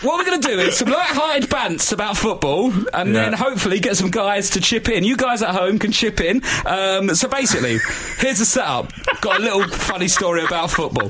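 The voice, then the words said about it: Put-on radio DJ voice. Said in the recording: “Why are you putting that voice up? ... just talk normally ... I'm radio ... I'm being radio, mate ... you're putting on a voice when you're doing the setup for this item”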